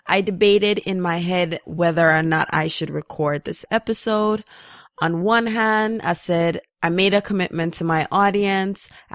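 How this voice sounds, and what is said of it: Tired-sounding voice. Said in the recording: “if you haven't heard it in my voice, I'm very tired”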